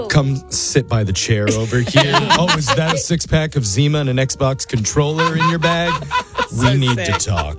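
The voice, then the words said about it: Chris Hansen impression. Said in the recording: “Chris Hansen impression”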